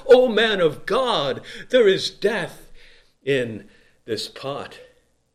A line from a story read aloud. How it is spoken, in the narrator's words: this dread came over them, and they immediately cried out to Elijah